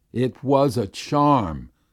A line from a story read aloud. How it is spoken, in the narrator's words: Ugluk exclaimed